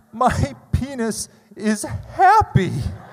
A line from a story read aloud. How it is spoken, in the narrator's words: told her through sobs, through soaking wet cheeks